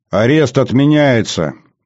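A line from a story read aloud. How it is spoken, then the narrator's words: Loud, for all to hear. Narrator (Russian): говорю я громко, чтобы остальные присутствующие слышали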